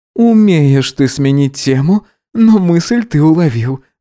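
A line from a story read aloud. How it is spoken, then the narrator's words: Laughing. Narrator (Russian): засмеялся Гидеон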